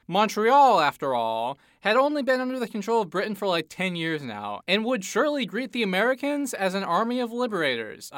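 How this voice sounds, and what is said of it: Sarcastic delivery. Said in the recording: “that was sarcastic”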